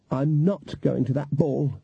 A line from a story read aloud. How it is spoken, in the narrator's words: she snapped